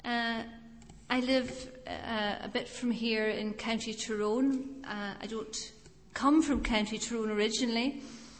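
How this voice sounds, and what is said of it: Scottish accent with Irish influence. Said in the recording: “I'm from Scotland ... she's a bit of a mongrel as far as accents go”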